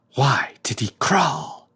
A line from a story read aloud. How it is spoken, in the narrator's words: whispered Anderson